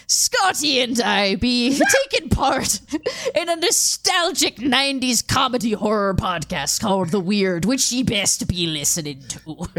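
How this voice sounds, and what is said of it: Gruff pirate character voice. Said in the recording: “this is just a fucked up Barbossa voice ... when I do a pirate voice ... I'm doing Nick Offerman's pirate voice from the Lego movie. And it's Metal Beard.”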